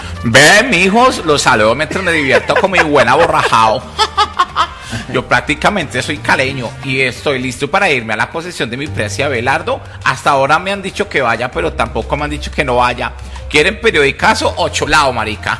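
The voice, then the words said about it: Impression of Juan Daniel Oviedo. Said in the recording (Spanish): “Juan Daniel Oviedo de la Luciérnaga se va para Cali?”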